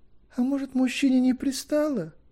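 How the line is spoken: Thin high voice. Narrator (Russian): начала тоненьким голосом Крейри

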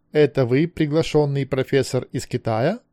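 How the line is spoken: Plain question. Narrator (Russian): спросил Зануцки

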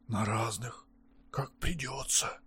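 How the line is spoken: Whisper. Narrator (Russian): также шепотом отвечал Курои

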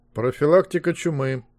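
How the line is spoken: Bored dictating tone. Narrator (Russian): скучным тоном диктовал Змейк

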